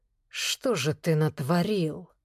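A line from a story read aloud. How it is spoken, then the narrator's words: Muttered. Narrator (Russian): пробормотал Влад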